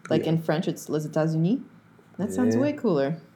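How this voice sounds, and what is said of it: Put-on French accent. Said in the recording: “That was good. That was good. That was a good accent.”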